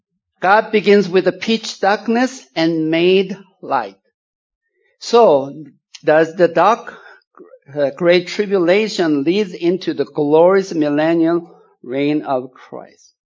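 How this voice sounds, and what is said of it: Swedish accent. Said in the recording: “I'm from southern Sweden. That's why I have a lot of accent.”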